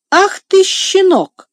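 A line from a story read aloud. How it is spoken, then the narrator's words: Angry exclamation. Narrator (Russian): воскликнул Сен-Клер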